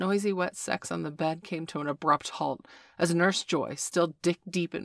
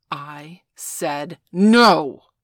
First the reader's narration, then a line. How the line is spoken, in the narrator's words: Veronica growled